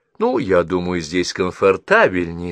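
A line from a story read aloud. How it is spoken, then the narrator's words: Plain. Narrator (Russian): сказала Мидж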